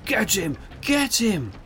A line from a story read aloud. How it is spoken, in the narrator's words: Rainer shouted from behind